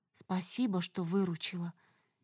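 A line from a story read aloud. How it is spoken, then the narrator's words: Barely audible rustle. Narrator (Russian): еле слышно прошелестело в ответ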